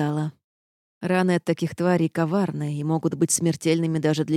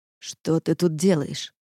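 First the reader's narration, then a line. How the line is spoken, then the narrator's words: Irritated question. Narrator (Russian): спросил раздраженно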